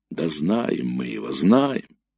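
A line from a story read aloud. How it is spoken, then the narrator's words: Respectful drawl. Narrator (Russian): уважительно протянул ефрейтор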